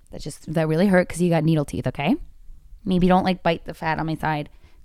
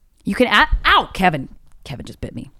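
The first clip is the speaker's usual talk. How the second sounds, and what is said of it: Suddenly raised, loud voice. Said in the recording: “I didn't mean to raise my voice.”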